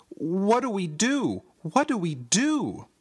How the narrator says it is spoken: I cried

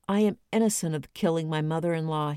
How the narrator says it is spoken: murmured

